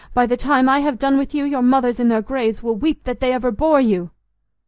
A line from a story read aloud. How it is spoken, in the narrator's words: cried, his voice growing shrill with passion